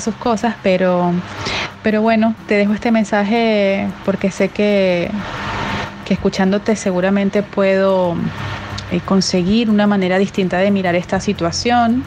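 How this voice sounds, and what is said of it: Venezuelan Spanish accent. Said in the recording (Spanish): “por su acento venezolana”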